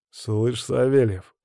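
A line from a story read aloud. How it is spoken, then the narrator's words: Growled. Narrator (Russian): прорычал Тимур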